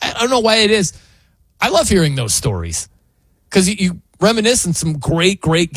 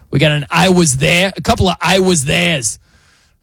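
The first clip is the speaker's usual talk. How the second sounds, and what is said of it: Imitates another person's voice. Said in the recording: “You got to say it like Boomer. That's not my official Boomer impression, but, you know, it'll make do”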